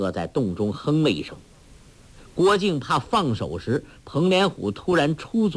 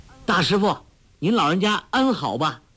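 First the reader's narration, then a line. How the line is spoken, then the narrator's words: Loud call. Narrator (Chinese): 高声叫道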